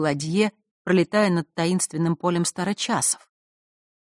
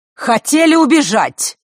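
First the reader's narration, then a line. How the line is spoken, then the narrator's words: Shouted from the doorway. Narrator (Russian): выкрикнула она с порога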